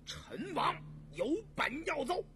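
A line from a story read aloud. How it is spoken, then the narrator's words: Loud. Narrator (Chinese): 果亲王和简亲王大声说道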